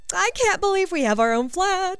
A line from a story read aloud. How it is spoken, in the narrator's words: she said excitedly